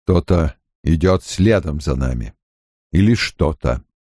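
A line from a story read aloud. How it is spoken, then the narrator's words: Quiet. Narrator (Russian): Лан негромко сказал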